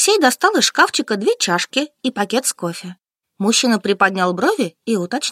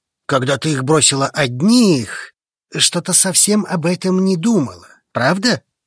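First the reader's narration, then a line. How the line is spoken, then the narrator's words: Scoffing reply. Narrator (Russian): Хмыкнул он в ответ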